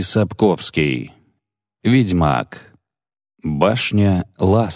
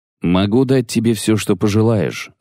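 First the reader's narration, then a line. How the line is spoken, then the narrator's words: Plain. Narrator (Russian): сказала волшебница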